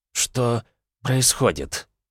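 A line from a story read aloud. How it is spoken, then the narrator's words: Fragile, frail voice. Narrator (Russian): хрупким голосом поинтересовался президент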